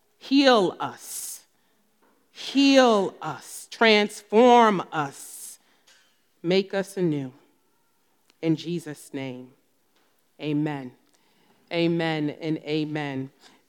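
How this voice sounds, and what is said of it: New Jersey accent. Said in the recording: “I am from New Jersey. You'll hear it in my accent.”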